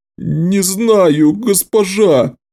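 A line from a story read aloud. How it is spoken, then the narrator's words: Pitiful whimper. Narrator (Russian): жалко проскулил он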